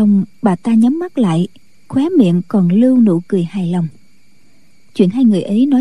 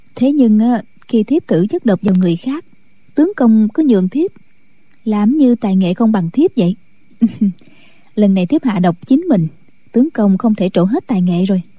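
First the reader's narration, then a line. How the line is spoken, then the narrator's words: Smiling, speaking. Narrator (Vietnamese): Thiếu phụ mỉm cười nói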